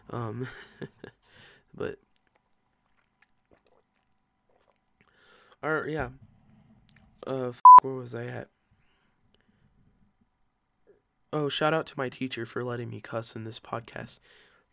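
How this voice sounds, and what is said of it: Hoarse, congested voice. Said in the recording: “I woke up with the worst allergies I've had in months... that's why I sound like a f***ing walrus.”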